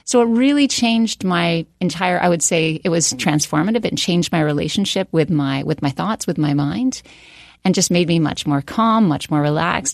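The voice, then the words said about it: Canadian accent. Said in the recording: “Do I detect a Canadian accent? ... You do”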